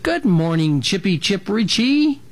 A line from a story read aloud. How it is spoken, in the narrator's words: cooed, not wanting to scare him